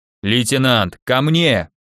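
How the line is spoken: Growled. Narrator (Russian): прорычал плечистый

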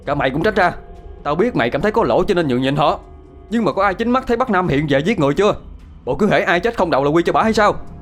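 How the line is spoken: Angry shouting. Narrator (Vietnamese): Thiên đã quát tháo

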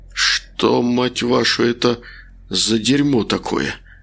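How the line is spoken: Hoarse whisper. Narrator (Russian): прошептал Макар осипшим голосом

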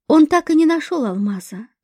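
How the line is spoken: Sighing. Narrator (Russian): вздохнул Асиф

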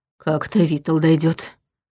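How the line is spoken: Mutter. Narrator (Russian): пробормотал Черим

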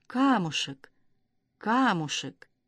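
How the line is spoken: Mournful mutter. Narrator (Russian): скорбно покачал головой, пробормотав

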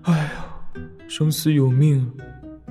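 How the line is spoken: Sighing mumble. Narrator (Chinese): 白武惨白着脸叹了口气，喃喃道

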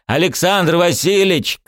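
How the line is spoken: Shouted. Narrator (Russian): крикнул я

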